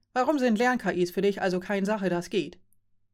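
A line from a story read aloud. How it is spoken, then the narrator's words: Plain question. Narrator (German): fragte Joren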